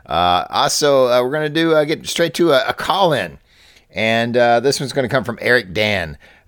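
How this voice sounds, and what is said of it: Kentucky accent. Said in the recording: “my Kentucky accent”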